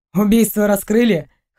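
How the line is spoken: Snorting. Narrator (Russian): хмыкнул Максим

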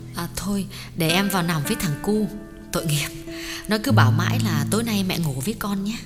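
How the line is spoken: Soft and gentle. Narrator (Vietnamese): Tuyết nhỏ nhẹ bảo

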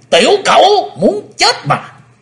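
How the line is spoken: Cold laughing shout. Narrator (Vietnamese): Độc tí xài nhân cười lạnh quát lên

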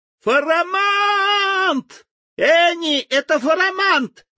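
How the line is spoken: Delighted yell. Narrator (Russian): восхищенно заорал Тим

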